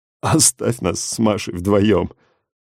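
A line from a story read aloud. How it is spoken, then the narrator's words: Tearful plea. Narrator (Russian): Сквозь слезы попросил Андреич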